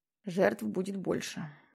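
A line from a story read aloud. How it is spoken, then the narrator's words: Quiet voice. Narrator (Russian): произнес Питер Джексон тихо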